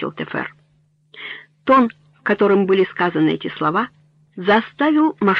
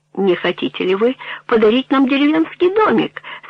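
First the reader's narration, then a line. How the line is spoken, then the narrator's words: Laughing question. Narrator (Russian): смеясь спросил Термон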